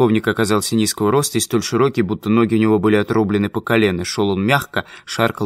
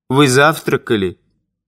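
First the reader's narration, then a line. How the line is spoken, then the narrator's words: With a snort. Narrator (Russian): поручик хмыкнул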